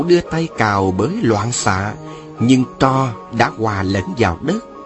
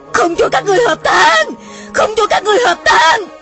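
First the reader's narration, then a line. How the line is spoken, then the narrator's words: Frenzied shouting. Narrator (Vietnamese): Hà Hồng Dược la lên như điên dại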